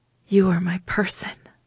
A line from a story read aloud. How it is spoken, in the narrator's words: I whispered, feeling the rightness and inevitability of the words